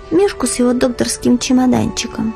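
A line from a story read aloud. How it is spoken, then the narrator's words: Quiet. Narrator (Russian): тихо сказала Лиза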